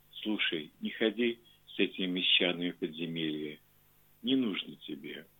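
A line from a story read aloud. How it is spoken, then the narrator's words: Strange quiet voice. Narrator (Russian): сказала странным тихим голосом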